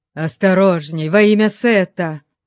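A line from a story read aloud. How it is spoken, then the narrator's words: Groan. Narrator (Russian): простонал Ольмек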